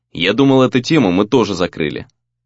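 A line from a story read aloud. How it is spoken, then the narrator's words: Cold. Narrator (Russian): сказал он холодно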